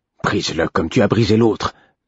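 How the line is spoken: Angry murmur. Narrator (French): murmurait-il d'un ton coléreux

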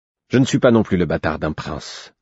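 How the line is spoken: Answered curtly. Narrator (French): répondit-il sèchement

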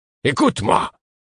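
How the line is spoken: Sudden violent exclamation. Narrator (French): s'exclama-t-il, avec une violence inattendue

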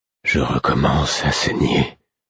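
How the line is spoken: Murmured to oneself. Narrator (French): murmurai-je pour moi

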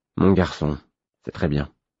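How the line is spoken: Mumbling. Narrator (French): marmonnai-je

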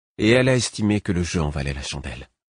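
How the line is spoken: Serene reply. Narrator (French): répondit-il d'un ton serein

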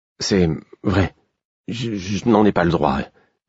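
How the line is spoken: Stammering. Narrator (French): dis-je en bégayant

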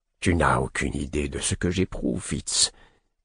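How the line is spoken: Half-voiced reply. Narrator (French): répondit-il à mi-voix

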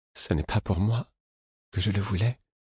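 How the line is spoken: Murmured. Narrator (French): murmura-t-il

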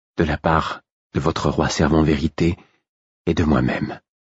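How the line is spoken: Low voice. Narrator (French): dit-elle à mi-voix

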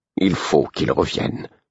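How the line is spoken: Murmuring. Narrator (French): murmura Imbre

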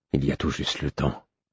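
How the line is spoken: Murmured. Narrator (French): murmura

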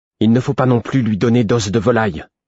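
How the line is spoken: Stern tone. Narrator (French): dis-je d'un ton sévère

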